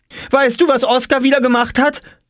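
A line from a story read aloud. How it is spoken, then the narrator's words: Called out. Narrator (German): rief Jule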